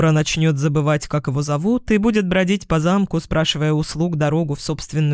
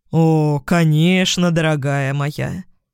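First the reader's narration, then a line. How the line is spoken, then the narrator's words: Sarcastic drawl, cat. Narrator (Russian): протянул кот язвительно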